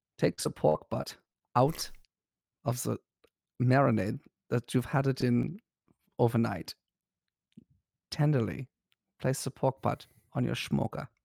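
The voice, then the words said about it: Sensual ASMR-style German accent. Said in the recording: “In a very sensual manner, ASMR style ... Maybe an accent, maybe German ... You want German?”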